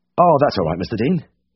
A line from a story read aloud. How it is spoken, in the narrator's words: I said quickly